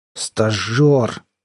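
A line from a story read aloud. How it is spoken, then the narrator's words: Contemptuous, through teeth. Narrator (Russian): презрительно кривя губы, процедил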